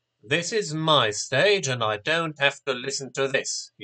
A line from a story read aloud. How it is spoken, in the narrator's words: said crossly